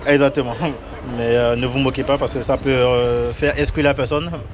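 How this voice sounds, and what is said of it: Beninese French accent, distinctive R. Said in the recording (French): “Mon accent, c'est... Des fois, il y a par exemple les R qui ne sont pas bien prononcés ... Du Bénin. Je suis béninois.”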